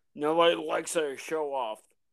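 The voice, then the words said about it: Imitates another person's voice. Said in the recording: “That's my poor man's impersonation. ... Idris Elba.”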